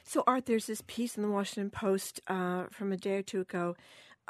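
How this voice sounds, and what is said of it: Raspy voice. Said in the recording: “apologize for my voice, Art. I'm raspy today.”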